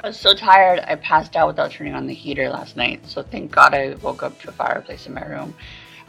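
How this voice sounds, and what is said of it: Worn-out, hoarse voice. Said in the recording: “My voice is still shot.”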